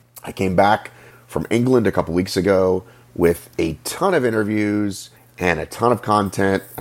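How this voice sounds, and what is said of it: Sick-sounding voice. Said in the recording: “I sound sick? Do I sound ill? ... coming out of the flu”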